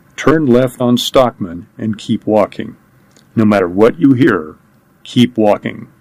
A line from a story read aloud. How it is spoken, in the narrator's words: he said as calmly as he could